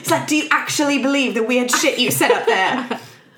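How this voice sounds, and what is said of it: Put-on British accent. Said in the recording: “I just always wanted to do a British accent.”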